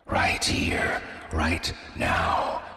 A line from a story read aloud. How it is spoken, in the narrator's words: whispered the knife